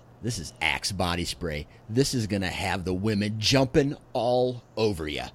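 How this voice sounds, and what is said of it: Imitates another person's voice. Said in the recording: “my best impression of him”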